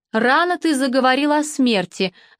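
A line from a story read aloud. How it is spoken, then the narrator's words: Father laughing. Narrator (Russian): засмеялся папа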